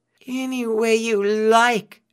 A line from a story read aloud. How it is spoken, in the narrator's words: Anansi moaned